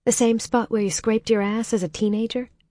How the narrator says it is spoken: Holly asked

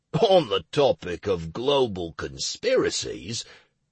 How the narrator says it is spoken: Plinto drawled sarcastically

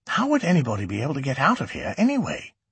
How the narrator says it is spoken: He whispered again

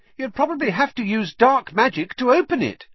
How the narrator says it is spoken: piped up Parvati Patil

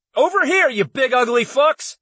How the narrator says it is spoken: I yelled

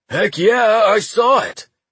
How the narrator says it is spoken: shouted Wade

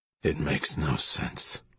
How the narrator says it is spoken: Russell muttered

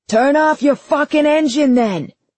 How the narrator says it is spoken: the driver of the second car yelled

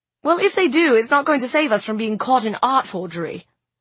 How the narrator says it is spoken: snapped

